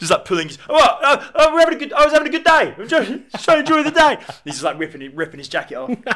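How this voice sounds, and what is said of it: Usual voice. Nothing is said of it.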